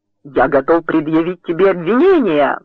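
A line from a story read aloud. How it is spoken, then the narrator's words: Roared. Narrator (Russian): взревел Мэг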